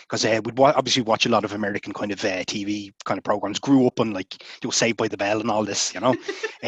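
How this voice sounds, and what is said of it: Irish accent. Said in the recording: “simply to hear your accent ... It's awesome ... how like I suppose I sound to other or to non-Irish”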